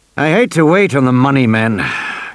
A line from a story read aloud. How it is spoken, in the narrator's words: Grant grumbled